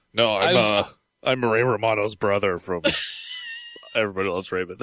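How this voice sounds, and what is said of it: Imitates another person's voice. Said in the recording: “That's my impression of him. ... That's pretty good, actually.”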